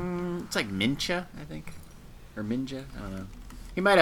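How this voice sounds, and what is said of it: Usual voice. Nothing is said of it.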